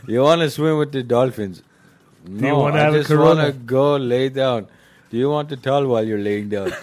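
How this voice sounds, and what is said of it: Put-on Indian accent. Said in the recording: “You went from like Hispanic accent to Indian accent very quickly.”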